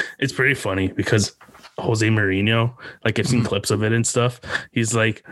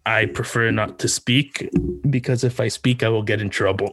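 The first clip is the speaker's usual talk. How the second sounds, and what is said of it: Thick Portuguese accent imitation. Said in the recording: “his thick like Portuguese accent”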